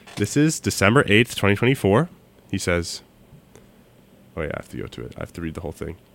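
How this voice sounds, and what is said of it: Congested voice from a cold. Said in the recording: “I have a cold. I probably sound, like, really disgusting. ... Usually, I have a much better radio voice.”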